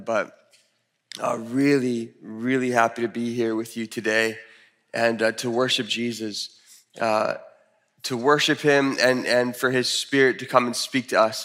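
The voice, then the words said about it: Deep radio-like voice, slightly sick. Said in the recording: “I have my sexy voice back, my radio voice, a little bit under the weather”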